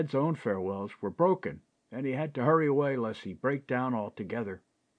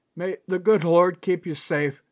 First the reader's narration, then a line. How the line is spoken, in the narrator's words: sobbed Charity